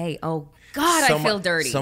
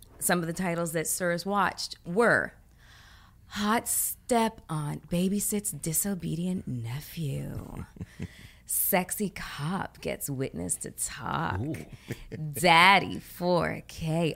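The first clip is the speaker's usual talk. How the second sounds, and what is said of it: Exaggerated sultry, seductive reading voice. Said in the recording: “Please read it in your most sexual voice?”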